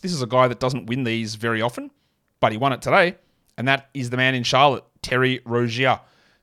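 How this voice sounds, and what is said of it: Non-American English accent. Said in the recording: “my accent because we don't say those words anything remotely the same ... I know you guys say them the same over in America”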